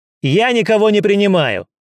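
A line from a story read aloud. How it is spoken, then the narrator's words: Sharp angry bark. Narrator (Russian): Резко гаркнул он, в сердцах проклиная назойливого незнакомца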